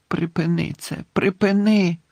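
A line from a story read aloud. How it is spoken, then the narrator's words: Moaning. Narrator (Ukrainian): стогнав Дамблдор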